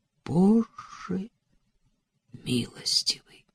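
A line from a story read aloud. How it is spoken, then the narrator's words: Whisper. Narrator (Russian): прошептал Адам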